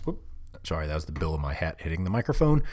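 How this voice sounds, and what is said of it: Talking very fast. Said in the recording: “Slow down, you're talking too fast.”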